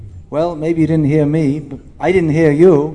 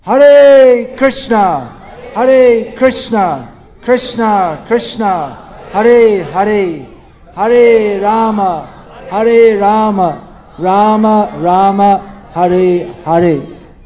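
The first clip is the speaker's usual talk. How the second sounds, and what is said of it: Loud chanting. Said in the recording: “say it loudly”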